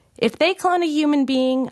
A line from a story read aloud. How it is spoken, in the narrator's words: I shouted back